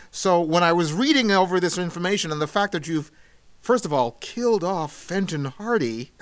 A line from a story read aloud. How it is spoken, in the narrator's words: I gasped